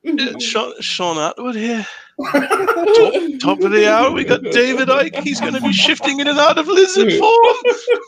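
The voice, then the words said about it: Imitates another person's voice. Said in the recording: “So do the impression. ... he's so good at these. ... Northern accent.”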